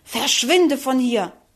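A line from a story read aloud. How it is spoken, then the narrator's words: Contemptuous furious hiss. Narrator (German): Verächtlich fauchte wütend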